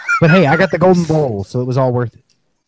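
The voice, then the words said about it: Imitates another person's voice. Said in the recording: “That was an impression.”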